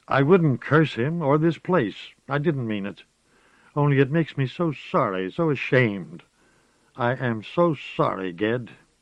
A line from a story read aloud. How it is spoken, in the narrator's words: so urgent, so passionately earnest, cried